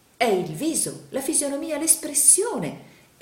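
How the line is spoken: Exclamation. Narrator (Italian): esclamò il signor Pike

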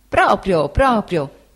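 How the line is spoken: Exclaiming. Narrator (Italian): esclamò Cam

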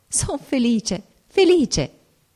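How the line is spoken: Ecstatic joyful exclamation. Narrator (Italian): Era una felicità viva, inebriante, e giungendo le mani esclamai

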